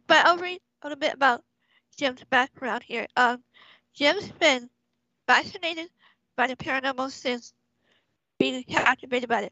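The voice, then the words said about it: Weak voice from a cold. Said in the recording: “excuse my voice, kind of weak tonight because of the cold”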